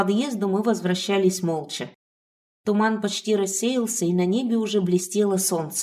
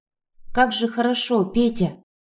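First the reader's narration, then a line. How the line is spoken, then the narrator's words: Muffled exhaled words. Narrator (Russian): выдохнула, пряча голову у него на груди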